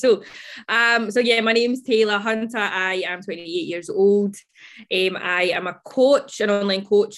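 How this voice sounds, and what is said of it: Strong regional accent, speaking slowly. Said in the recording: “listen really really closely to that accent ... I'm going to speak extra slow because I understand like it's a little bit tricky with my accent”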